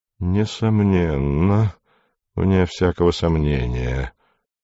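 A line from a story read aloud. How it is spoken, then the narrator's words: Muttered. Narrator (Russian): бормоча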